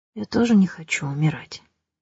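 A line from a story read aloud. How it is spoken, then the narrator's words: Whisper. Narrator (Russian): прошептал он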